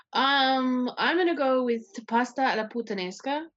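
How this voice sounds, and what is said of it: Heavy put-on Italian accent. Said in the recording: “everyone puts on the heavy accent whenever they say it. ... I can't say Italian food without that accent.”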